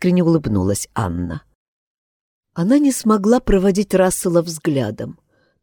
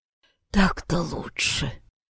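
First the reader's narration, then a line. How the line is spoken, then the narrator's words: Almost soundless hoarse wheeze. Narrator (Russian): почти беззвучно прохрипела она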